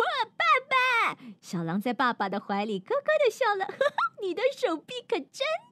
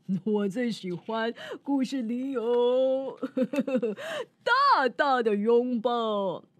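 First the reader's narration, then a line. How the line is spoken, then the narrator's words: Smiling. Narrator (Chinese): 狼爸爸笑着说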